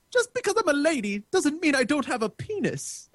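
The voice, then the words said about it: Put-on accent. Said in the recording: “I like the accent. ... I've been working on sucking a little less at accents lately.”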